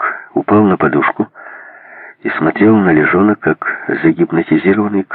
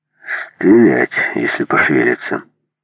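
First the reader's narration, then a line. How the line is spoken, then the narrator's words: Calm. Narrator (Russian): спокойно сказал Лежон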